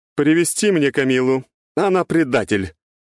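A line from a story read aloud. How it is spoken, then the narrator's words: Imperious commanding voice in head. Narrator (Russian): раздалось в голове приказным властным голосом княгини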